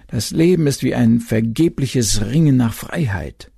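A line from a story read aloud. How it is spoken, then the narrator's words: Moaning. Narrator (German): stöhnten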